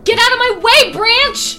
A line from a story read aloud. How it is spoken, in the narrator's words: She yelled at it